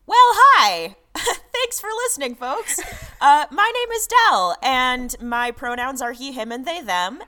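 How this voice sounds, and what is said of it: American accent. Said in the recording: “if you couldn't tell based on my accent alone, I am in fact based in the United States of America”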